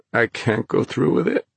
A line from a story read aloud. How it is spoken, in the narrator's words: Thomas moaned